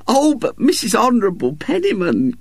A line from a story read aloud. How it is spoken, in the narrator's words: cried Mrs